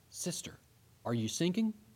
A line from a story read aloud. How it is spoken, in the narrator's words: Seeing her weakened condition, he bent over and whispered